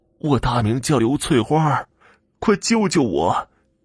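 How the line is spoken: Breathless, gasping. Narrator (Chinese): 快喘不过气来了

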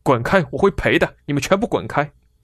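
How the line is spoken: Angry scolding. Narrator (Chinese): 费尔南德斯怒斥队友

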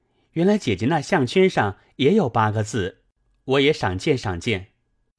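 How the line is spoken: Quick laughing reply. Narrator (Chinese): 宝玉听了，忙笑道

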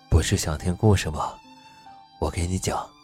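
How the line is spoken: Low soft chuckle. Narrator (Chinese): 邹时清低声笑了笑道

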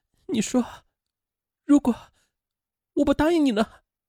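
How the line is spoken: Crying. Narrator (Chinese): 梁世阳哭泣着问于新春

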